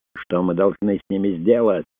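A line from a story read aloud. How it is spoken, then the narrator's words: Frantic screaming. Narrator (Russian): истошно завопил оратор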